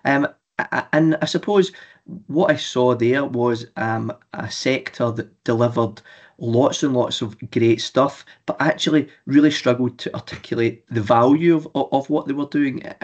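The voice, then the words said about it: Scottish accent. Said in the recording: “as my accent suggests, north of the border in housing associations in Scotland”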